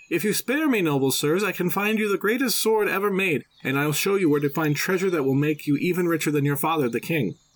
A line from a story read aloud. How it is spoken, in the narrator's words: Alpris cried out